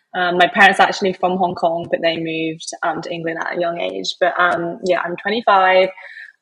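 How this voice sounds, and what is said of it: English accent. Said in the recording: “As you can probably tell from my accent, I'm originally from England.”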